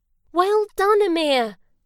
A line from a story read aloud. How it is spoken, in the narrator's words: Leo cried